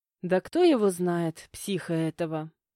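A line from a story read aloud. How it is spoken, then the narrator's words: Scoffing woman. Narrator (Russian): хмыкнула женщина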